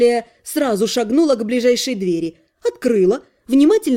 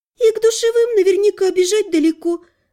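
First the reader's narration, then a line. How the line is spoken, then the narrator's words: Sighed. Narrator (Russian): вздохнула Лана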